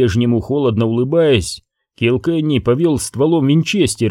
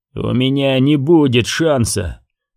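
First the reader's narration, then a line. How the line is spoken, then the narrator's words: Grim, dry-mouthed reply. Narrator (Russian): мрачно ответил ковбой, облизнув пересохшие губы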